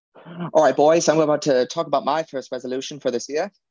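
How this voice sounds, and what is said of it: Weak put-on Australian accent. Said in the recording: “I don't do a good Australian accent”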